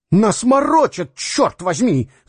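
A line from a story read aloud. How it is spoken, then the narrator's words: Shouted. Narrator (Russian): закричал Дюковский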